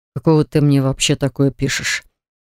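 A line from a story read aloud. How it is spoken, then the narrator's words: Muttering under breath. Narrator (Russian): Пробурчал он себе под нос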